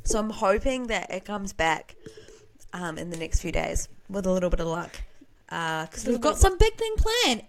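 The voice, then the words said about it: Strained voice, losing her voice. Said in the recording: “I'm losing my voice. Like, I'm holding it together, but I'm losing my voice.”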